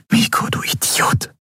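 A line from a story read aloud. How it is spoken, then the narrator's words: Whisper. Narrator (German): flüsterte sie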